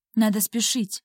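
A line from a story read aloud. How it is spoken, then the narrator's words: Quiet whisper. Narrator (Russian): тихо шепнул он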